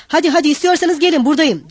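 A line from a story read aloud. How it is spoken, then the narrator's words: Shouted. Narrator (Turkish): diye bağırdı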